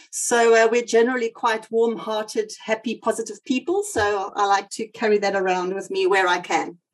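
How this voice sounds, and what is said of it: South African accent. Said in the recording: “I've got South African roots, as you might hear from my accent.”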